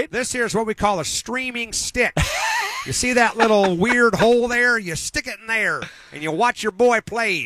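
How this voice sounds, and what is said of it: Put-on Southern accent. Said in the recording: “talking in a That's southern right. accent?”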